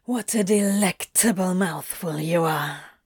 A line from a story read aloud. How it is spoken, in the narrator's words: hisses, with a self-satisfied smirk